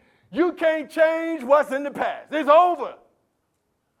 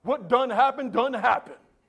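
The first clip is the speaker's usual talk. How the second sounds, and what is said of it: Put-on Southern dialect. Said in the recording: “Now I'm talking Southern language.”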